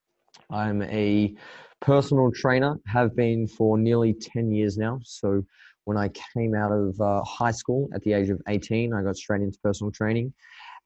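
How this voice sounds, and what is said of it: Australian accent. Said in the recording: “we don't share the same accent. So I'm not from your part of the world. I'm from far south in Melbourne, Australia.”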